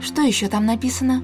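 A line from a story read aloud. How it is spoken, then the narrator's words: Quiet question. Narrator (Russian): тихо спросила Исадор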